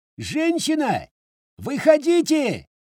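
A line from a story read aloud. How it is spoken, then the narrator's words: Unabashed yell. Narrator (Russian): Ничуть не смутившись, заорал Валера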